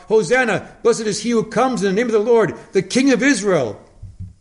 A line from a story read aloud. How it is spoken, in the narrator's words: they cried out